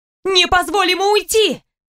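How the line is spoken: Shouted. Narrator (Russian): закричала я

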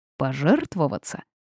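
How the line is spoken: Snorting. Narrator (Russian): хмыкнул он

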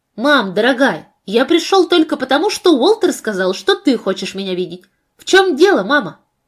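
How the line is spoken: Agitated, worried tone. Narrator (Russian): Вопрос был задан взволнованным тоном, потому что его острый глаз заметил слезы, все еще блестевшие на темных ресницах

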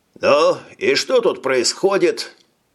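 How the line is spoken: Cheerful question. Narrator (Russian): Бодро спросил он

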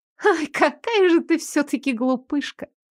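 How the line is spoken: Laughing. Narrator (Russian): Ильза рассмеялась

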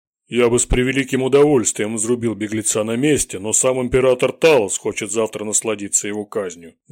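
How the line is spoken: Thunderous bass bark. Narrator (Russian): громовым басом рявкнул верзила

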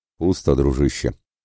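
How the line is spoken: Giant's heavy sigh. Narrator (Russian): Рыжебородый гигант тяжело вздохнул

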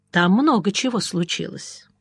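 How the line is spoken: Thoughtfully. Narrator (Russian): сказал я задумчиво

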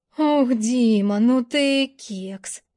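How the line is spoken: Muttered. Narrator (Russian): пробормотала

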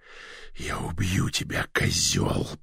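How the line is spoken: Growled. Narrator (Russian): прорычал

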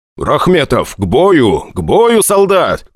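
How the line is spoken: Shouted. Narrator (Russian): крикнул я

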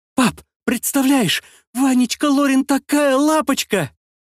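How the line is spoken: Happy squealing, little sister. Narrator (Russian): Визжащая от счастья сестренка

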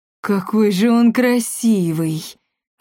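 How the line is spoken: Breathless. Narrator (Russian): выдохнула Беладонна Монпансье

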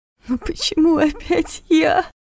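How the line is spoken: Tearful whisper. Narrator (Russian): шептала она сквозь слёзы

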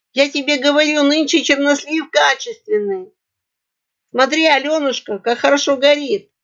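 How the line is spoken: Hoarse squeak, snorting. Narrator (Russian): Отфыркиваясь от пота, хрипло пискнула Айдзлидзе

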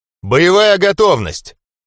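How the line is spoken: Barked command. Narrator (Russian): Пришлось рявкнуть

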